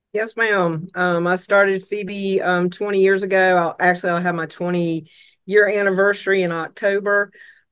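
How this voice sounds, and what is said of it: Slight Southern US accent. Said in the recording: “just a slight southern accent”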